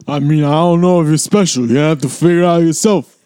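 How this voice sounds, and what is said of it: Imitates another person's voice, badly. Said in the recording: “Were you trying to do Sylvester Stallone? ... That was by far the worst Sylvester Stallone I have ever heard in my life.”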